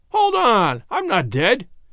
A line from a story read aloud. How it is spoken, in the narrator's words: he cried out, with stormy countenance